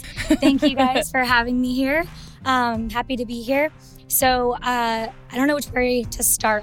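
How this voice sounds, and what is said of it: Hoarse, strained voice. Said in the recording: “apologize for my voice. I lost it over the weekend”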